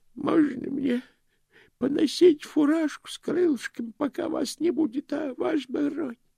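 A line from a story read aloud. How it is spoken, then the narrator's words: Pleading. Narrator (Russian): взмолился Грош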